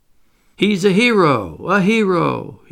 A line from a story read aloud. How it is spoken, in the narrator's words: cried